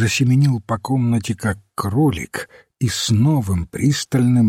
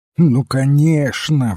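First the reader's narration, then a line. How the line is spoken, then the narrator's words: Excited exclamation. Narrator (Russian): взволнованно вскричал он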